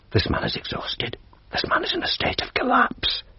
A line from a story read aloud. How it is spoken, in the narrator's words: the doctor whisper